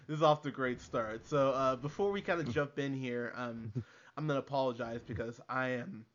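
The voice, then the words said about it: Hoarse, fading voice. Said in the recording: “losing my voice ... battling the old flu's”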